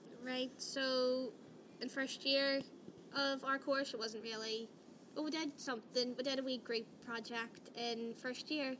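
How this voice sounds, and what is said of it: Irish accent, speaking slowly. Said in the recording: “Irish accents? ... I'm trying to talk a bit slow with mine today.”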